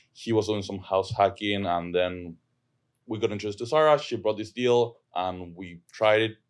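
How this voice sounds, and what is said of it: Argentinian accent. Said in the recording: “I'm from Argentina. That's where my accent is from.”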